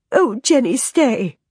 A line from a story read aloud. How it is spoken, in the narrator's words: Leslie sobs